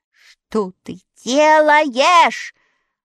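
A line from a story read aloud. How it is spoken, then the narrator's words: Frightened shout. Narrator (Russian): В испуге закричал Страшила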